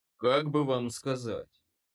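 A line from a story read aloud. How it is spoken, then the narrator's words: Chuckling, truly laughing. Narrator (Russian): хмыкнул Коул по-настоящему смеется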